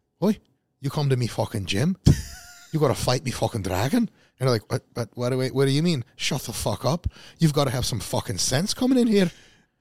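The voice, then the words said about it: Angry Welsh-accented impression of another person. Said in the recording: “Welsh accent ... When I do my Flex impression ... I don't have a Welsh accent, I have a Flex impression. And I make you a lot angrier than normal”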